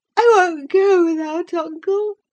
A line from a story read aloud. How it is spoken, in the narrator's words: he cried at length